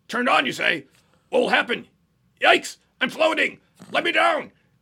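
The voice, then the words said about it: J. Jonah Jameson impression. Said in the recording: “do a pretty goddamn good impression of J. Jonah Jameson”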